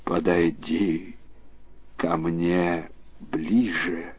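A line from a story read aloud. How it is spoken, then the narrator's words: Tsar's inaudible voice. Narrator (Russian): царь отвечал неслышным голосом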